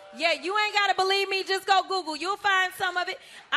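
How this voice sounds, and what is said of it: Urban American accent. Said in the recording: “I guess that's sort of an urban accent.”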